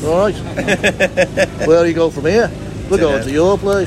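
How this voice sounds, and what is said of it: Imitated Liverpool accent. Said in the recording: “absolutely brilliant impersonation of other Liverpudlians”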